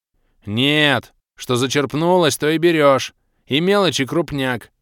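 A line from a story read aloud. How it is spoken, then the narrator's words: Curt, then loud yelling vendor. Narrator (Russian): категорично отрезал продавец и вновь заорал во всю глотку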